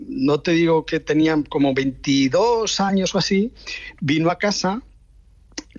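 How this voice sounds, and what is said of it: Usual voice. Nothing is said of it.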